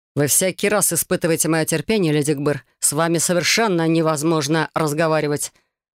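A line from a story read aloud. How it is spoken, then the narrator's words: Plain. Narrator (Russian): Сказала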